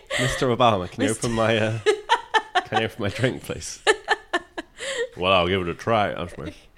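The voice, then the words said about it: Deeper generic American voice. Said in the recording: “Was that your Obama? ... That was my Obama ... You just kind of went for a deeper American ... Generic American.”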